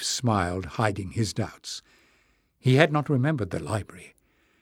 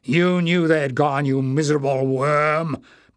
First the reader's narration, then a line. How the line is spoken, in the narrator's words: Barda thundered